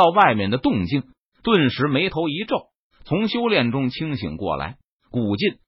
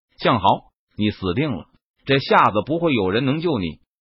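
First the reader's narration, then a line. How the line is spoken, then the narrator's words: Cold, harsh demand. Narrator (Chinese): 他冷声喝问道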